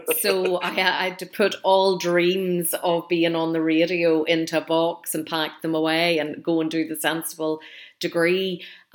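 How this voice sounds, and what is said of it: Northern Irish accent. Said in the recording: “the north of Ireland, where I'm from originally ... nobody wanted to listen to this accent”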